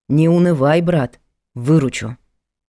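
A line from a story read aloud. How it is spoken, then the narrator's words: Stern command. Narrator (Russian): Строго велел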